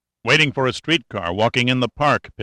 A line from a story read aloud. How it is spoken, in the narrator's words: Pitt snapped back